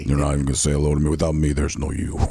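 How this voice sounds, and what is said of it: Deep booming voice. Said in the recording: “he does that voice ... It sounded like a real voice of God in there ... Deep voice.”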